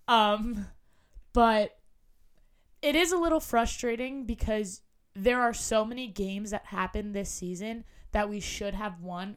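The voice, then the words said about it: Hoarse, damaged voice. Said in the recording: “my voice sounds like garbage. I lost it last week and it won't come back.”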